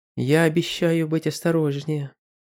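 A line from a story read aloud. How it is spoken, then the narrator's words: Quiet but confident. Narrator (Russian): тихо, но уверенно сказала она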